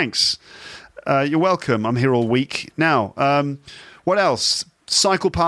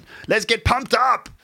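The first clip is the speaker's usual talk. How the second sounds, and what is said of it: Imitates another person's voice. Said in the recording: “my Arnold Schwarzenegger impression ... That was my Arnie impression.”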